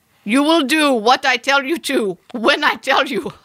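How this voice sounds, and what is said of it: Bad put-on foreign accent. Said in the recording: “forgive me or cancel me, fine for this accent ... the accent's so bad”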